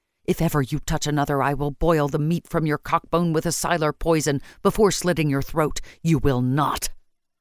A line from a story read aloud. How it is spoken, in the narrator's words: she told him fiercely